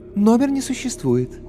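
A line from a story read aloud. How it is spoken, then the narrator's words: Melodious female voice. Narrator (Russian): Орлица неожиданно мелодичным женским голосом сообщила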